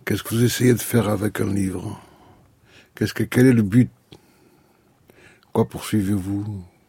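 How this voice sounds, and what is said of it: Non-native French accent. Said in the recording (French): “je m'excuse de mon accent et de mon français qui est très pauvre”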